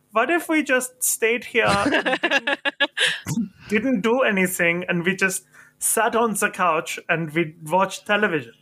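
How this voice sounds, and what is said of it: Bad put-on German accent. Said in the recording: “I like to think of the Schweinhund with the German accent ... that's the worst German accent I think you may have ever heard”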